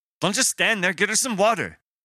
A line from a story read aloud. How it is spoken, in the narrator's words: snapped